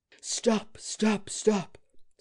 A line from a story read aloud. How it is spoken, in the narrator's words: Settembrini cried, lifting his head up to heaven